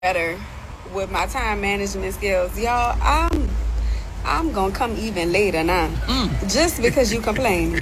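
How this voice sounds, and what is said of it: New Orleans accent. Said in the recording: “that New Orleans accent.”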